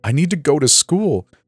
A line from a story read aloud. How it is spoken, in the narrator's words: I cried